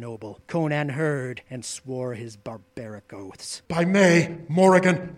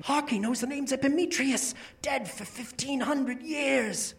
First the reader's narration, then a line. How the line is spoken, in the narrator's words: they whispered to each other